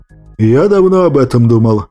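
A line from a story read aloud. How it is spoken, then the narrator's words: Hesitant, uncertain. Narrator (Russian): как-то неуверенно произнес генерал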